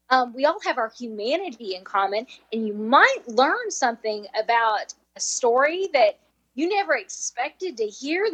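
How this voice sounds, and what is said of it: Nashville Southern US accent. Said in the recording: “I grew up in southwestern Kentucky, so it's the Nashville accent ... this accent isn't going anywhere”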